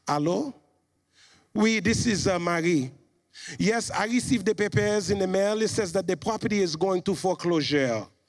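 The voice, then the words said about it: Imitates a strong foreign accent. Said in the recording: “my mom has a strong accent”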